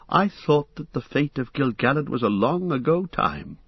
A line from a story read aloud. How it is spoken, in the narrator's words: he stammered